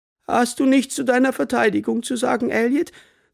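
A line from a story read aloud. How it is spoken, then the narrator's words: Sighing from the floor. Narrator (German): seufzte nenn mich Graham vom Boden aus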